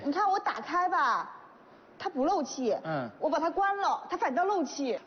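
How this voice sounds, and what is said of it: Shandong regional accent. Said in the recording (Chinese): “听你口音，好像不是本地人呢 ... 我山东的”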